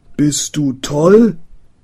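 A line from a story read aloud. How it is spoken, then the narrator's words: Shouting. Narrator (German): schrie der Bäcker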